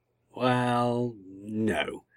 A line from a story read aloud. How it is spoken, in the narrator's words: the Doctor mumbled in reply